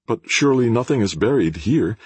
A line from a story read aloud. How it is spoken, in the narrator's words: exclaimed Braith uneasily